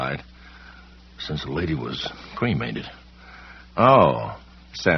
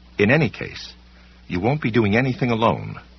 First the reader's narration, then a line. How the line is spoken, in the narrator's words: she said firmly